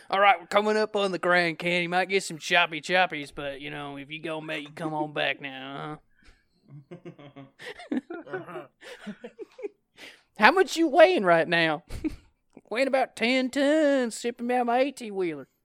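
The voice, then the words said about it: Put-on sexy trucker voice. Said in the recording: “And a really, really sexy voice.”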